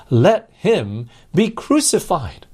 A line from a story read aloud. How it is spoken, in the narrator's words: they cried out the more, saying